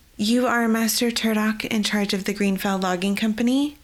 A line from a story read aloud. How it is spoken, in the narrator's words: Yelioth asked